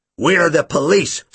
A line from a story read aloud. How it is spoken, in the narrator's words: Snape snapped